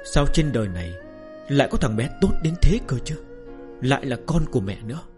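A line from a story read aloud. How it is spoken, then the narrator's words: Sick woman's happy murmur. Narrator (Vietnamese): Người phụ nữ ốm đau tra tấn đã lâu bỗng tràn ngập hạnh phúc, thủ thỉ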